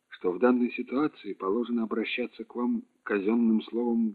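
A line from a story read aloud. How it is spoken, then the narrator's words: Calm. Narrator (Russian): спокойно начал Петров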